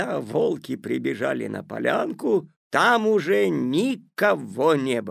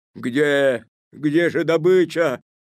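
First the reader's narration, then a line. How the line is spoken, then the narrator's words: Growled. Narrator (Russian): зарычали они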